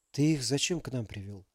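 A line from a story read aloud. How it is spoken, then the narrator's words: Tired half-whisper. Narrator (Russian): полушептом спросил усталый мужчина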